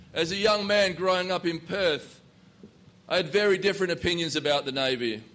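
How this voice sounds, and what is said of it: Australian accent. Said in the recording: “As you can tell from my accent, I'm not from this place. It's a little bit south of here.”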